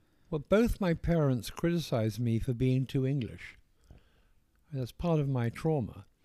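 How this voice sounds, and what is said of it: Posh English accent. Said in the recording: “Why do you always talk in that posh accent? ... Is that where the poshness in your accent comes from? ... the poshness of my accent just came naturally”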